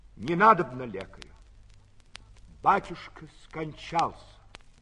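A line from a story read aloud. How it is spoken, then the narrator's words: Curt. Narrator (Russian): Владимир отрывисто сказал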